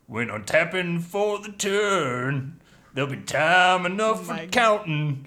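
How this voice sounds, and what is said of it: Singing in a country accent. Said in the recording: “Magic sung in a country accent.”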